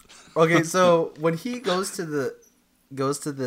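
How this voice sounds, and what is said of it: Usual voice. Nothing is said of it.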